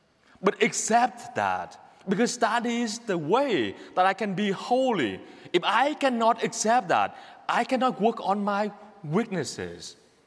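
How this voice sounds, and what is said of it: Speaks with a noticeable accent. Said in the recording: “you recognize my accent easily ... I'm trying to work on my accent”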